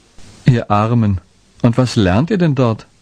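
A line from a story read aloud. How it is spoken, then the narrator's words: Bright ringing laugh. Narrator (German): lachte hell auf, so dass in den Wäldern seine glockenhelle Stimme widerhallte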